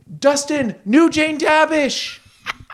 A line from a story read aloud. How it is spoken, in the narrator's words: Maya yelled from the room with the TV